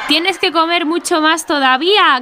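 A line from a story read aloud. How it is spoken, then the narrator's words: Several voices shouting. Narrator (Spanish): gritaban algunos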